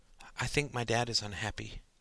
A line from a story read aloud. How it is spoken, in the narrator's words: murmured Sarah